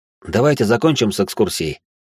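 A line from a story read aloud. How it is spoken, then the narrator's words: Snorting. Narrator (Russian): хмыкнул я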